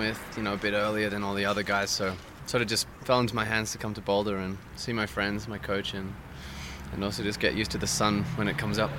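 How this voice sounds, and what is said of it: Australian accent. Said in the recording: “You're from Australia, as people can probably tell from the accent.”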